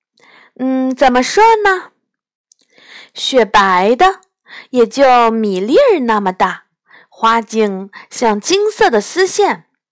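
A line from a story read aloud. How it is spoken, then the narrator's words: Grinning. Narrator (Chinese): 我咧嘴笑着说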